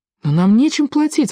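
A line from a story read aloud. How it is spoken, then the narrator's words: Exclaiming. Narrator (Russian): воскликнул Паки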